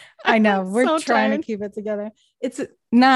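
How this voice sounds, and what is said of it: Usual voice. Nothing is said of it.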